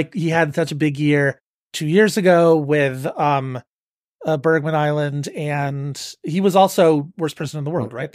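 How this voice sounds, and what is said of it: Hoarse, fading voice. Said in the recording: “I am losing my voice”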